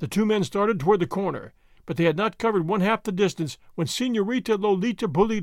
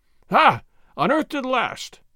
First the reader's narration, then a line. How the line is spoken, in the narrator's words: Gonzales cried